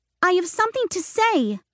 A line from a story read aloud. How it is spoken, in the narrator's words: she yelled